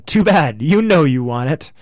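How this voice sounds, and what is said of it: Imitates another person's voice. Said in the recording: “my Trudeau impression.”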